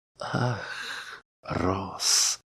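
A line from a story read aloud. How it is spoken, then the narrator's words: Sighing. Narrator (Russian): вздохнула Мира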